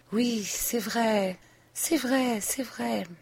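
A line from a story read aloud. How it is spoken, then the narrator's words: Low voice. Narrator (French): Et elle disait de temps à autre, à voix basse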